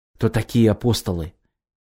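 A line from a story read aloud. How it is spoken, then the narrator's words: Quiet question. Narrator (Russian): тихо спросил Глеб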